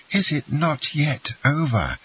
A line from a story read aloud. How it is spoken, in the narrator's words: exclaimed Ade